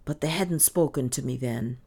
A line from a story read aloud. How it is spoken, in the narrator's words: she muttered at last